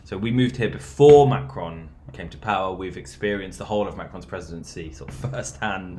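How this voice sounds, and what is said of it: British accent. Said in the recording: “obviously I sound British, I am British”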